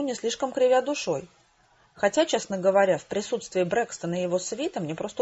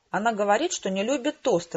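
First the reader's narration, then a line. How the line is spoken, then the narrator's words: Irritated exclamation. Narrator (Russian): раздраженно воскликнул Помреж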